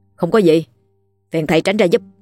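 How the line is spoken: Cold, defiant. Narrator (Vietnamese): bản tính ngang tàn, cậu ta không thèm kiên nể gì thầy giáo, trả lời với gương mặt lạnh lùng

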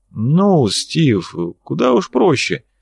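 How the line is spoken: Sigh, slow deliberate speech. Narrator (Russian): Валюженич вздохнул и начал говорить медленно, выделяя каждое слово

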